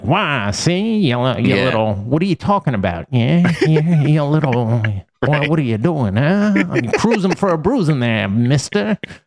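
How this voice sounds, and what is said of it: Old-timey movie gangster accent. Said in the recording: “like when you look at old timey movies ... like that kind of old timey accent”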